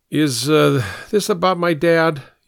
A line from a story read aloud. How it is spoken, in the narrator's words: asked, his voice slurred enough to show he was drunk